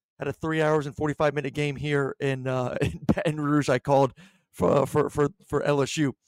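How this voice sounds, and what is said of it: Hoarse, fading voice. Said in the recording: “I'm sorry if my voice is kind of going away a little bit.”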